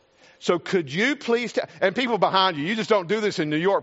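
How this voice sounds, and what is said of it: Rural American country accent. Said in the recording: “you can kind of tell by my accent, I'm not from New York City ... I was just like the country boy”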